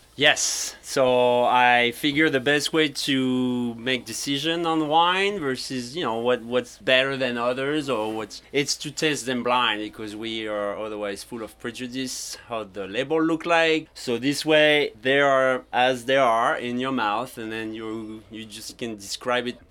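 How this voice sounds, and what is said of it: French accent in English. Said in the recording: “That accent. ... Paris and Brittany over in France. ... But I kept the accent.”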